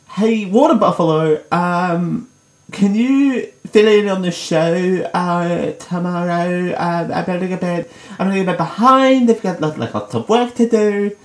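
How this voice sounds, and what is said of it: Impression of Dale. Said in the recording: “my Dale impression”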